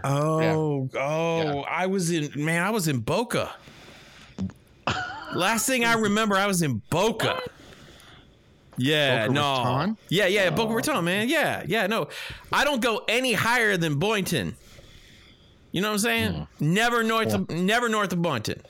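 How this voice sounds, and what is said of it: Accent drifting between several accents. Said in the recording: “your accent seems to kind of be drifting in and out of several different things.”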